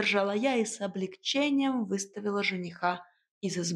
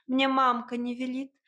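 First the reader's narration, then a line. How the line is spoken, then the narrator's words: Impatient barking. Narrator (Russian): теряя терпение, рявкнула я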